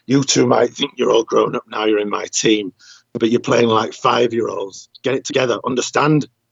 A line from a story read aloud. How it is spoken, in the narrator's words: Vinnie growled